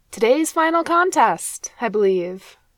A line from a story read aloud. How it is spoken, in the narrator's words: he called out, sheepishly accepting his defeat